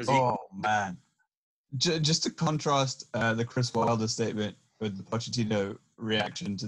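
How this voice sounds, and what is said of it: Usual voice. Nothing is said of it.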